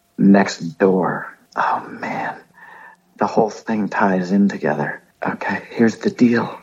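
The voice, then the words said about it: Whispering, lowered voice. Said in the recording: “I've been asked to lower my voice ... the whole podcast with the whisper? ... This might be a little whisper cast here.”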